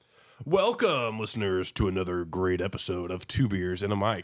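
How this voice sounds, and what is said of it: Congested, stuffy-nosed voice. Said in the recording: “why today we sound a little different ... I've been a little congested lately.”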